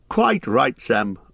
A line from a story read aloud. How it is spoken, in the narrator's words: laughed Bilbo